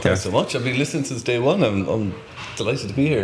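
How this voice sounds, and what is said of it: Strong Irish accent. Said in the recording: “You knew I had an accent ... that is an accent and a half there ... I'm from Cork in Ireland”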